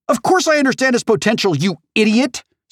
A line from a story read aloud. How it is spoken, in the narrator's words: Samantha shouts